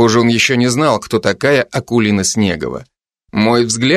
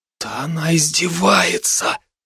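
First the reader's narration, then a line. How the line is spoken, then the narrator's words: Stunned whisper. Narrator (Russian): прошептал ошарашенный Илья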